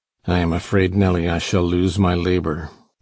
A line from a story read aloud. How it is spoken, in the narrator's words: he muttered to me